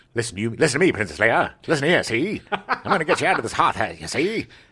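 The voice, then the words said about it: Mid-Atlantic old-time gangster accent. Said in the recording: “everyone has a mid-Atlantic accent all of a sudden ... Became a gangster.”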